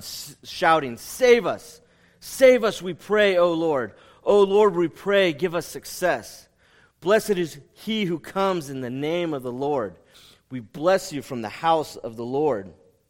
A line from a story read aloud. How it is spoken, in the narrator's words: And the people are shouting